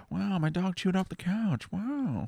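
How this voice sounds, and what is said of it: Owen Wilson impression. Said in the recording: “I'm like Owen Wilson. ... He does say well a lot. ... my one impression”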